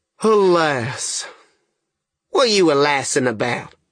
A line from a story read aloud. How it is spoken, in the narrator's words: the young man hove a sigh and says